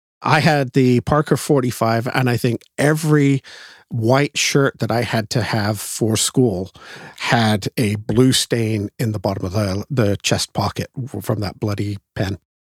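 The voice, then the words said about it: Non-English accent, though English-born. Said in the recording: “despite the accent, I am originally English”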